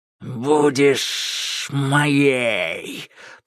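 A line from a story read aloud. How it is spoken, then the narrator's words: Hissing. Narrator (Russian): прошипел Кощей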